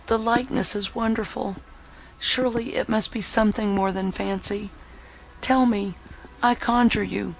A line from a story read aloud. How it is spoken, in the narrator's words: She then said feebly